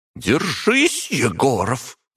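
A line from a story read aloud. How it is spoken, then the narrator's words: Growled. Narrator (Russian): прорычала Завьялова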